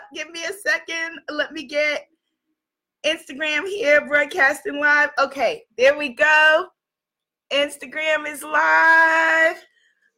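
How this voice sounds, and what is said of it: Hoarse, recovering voice. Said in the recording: “As you can hear, my voice is on the comeback. It's on the come up.”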